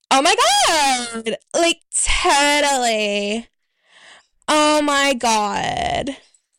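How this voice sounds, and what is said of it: Put-on Valley Girl accent. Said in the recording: “I did a bit of a Valley Girl accent before”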